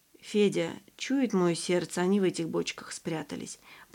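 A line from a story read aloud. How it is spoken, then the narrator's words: Whispered. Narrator (Russian): прошептала Тамара Константиновна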